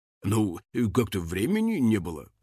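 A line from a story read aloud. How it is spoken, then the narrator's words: Mumbled. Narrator (Russian): пробормотал он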